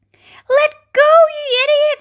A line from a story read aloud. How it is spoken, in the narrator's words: shouted the centipede